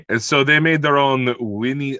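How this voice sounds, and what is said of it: Put-on Russian accent. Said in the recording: “I shouldn't do a Russian accent”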